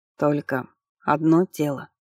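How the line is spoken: Quiet questioning. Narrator (Russian): тихо переспросил он

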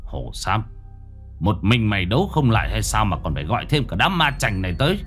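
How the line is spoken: Harsh emphatic voice. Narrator (Vietnamese): Gã gằn giọng

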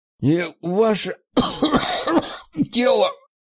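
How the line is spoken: Hoarse rasp. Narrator (Russian): прохрипел

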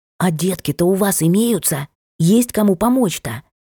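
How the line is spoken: Loud whisper, asking. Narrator (Russian): громким шёпотом спрашивает круглолицая Метельская

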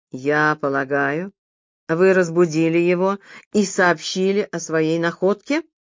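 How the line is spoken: Sarcastic question. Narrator (Russian): язвительно осведомился Майлз Редберн

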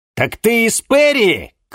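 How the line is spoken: Shouting. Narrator (Russian): крикнул Денис

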